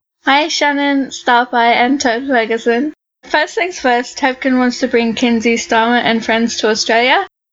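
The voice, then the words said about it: Australian accent. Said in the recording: “awesome Australian accent”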